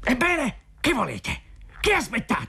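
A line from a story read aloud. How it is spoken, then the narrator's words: Angry shout. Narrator (Italian): gridò con ira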